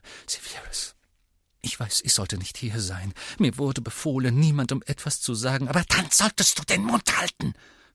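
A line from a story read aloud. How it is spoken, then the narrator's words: Hissing. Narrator (German): fauchte Bellatrix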